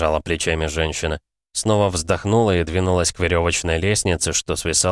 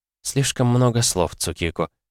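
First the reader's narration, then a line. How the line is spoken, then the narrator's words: Soft. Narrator (Russian): мягко ответила та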